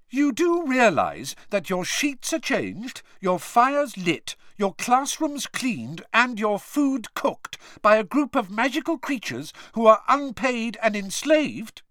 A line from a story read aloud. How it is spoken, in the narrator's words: she kept saying fiercely